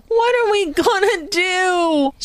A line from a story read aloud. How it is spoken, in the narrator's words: wailed